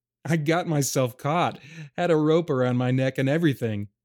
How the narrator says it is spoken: Dag laughed as he told of the mishap

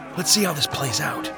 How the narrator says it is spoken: he whispered

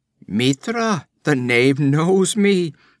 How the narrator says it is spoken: exclaimed the other

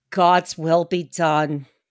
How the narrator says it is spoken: Harker solemnly said

